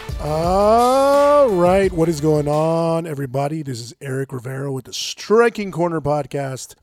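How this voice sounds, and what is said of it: Sick-sounding voice. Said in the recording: “I'm actually feeling really under the weather today, as you can tell by my voice ... I'm just feeling real sick”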